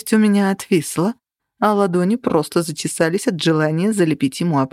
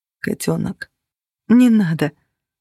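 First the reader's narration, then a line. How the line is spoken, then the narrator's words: Breath breaking, stifled sob. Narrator (Russian): Дыхание у меня прервалось от сдержанного всхлипа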